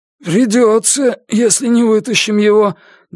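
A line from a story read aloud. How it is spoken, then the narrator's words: Muffled. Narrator (Russian): глухо отозвался Гриша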